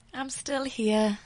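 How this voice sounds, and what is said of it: Sad-sounding voice. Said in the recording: “Why do you sound so sad?”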